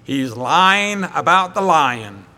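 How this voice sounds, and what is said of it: Imitates another person's voice. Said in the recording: “I've got to try my J. Vernon McGee accent here.”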